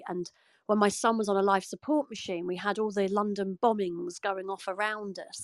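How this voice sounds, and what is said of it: British (UK) accent. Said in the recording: “as uh, you can probably tell from my accent, I'm from the UK.”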